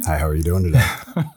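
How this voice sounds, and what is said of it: Polished radio announcer voice. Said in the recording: “with that great radio voice.”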